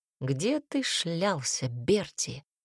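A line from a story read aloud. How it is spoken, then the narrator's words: Quiet private question. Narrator (Russian): тихо спросил Тибор, чуть наклонившись к племяннику так, чтобы никто не слышал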